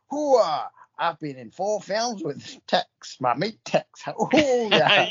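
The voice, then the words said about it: Imitates another person's voice. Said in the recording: “I know people do this when they're doing Al Pacino ... I've lost the accent.”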